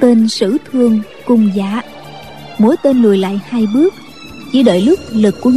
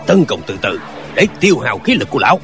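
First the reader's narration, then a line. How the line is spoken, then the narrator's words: Commanding shout. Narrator (Vietnamese): Tên thủ lĩnh của ma giáo lại quát lên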